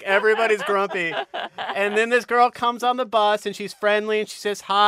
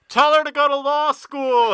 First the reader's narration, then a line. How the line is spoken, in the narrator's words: people yell